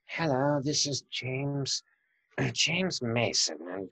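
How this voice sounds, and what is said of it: Imitates another person's voice. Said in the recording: “I've got a rather strange accent.”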